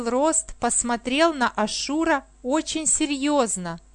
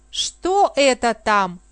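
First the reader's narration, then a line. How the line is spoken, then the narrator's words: Plain question. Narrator (Russian): спросила Пандора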